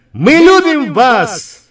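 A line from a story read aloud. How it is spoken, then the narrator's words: Shouting. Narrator (Russian): Она крикнула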